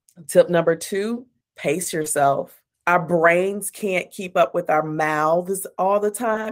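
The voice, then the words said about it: Texan twang. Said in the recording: “I'm from Texas and that twang be strong sometimes”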